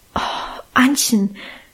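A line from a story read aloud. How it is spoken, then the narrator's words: Groaning. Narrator (German): stöhnte dieses Etwas endlich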